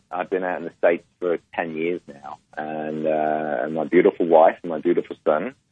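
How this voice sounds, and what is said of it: English accent. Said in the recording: “my canny accent is from England. I'm from the UK originally.”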